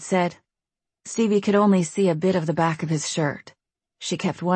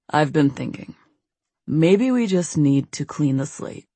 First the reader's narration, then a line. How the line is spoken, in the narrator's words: David said, his voice low